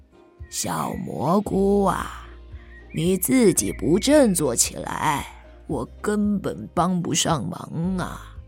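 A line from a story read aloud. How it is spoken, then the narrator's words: Gentle. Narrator (Chinese): 柳树温柔地说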